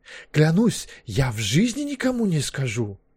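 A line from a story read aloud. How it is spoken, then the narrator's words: Sudden impulsive exclamation. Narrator (Russian): Вдруг по наитию воскликнул Маккехт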